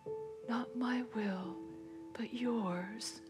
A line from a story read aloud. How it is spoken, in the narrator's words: murmured